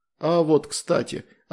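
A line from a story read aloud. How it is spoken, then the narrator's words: Plain. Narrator (Russian): ответил Андрей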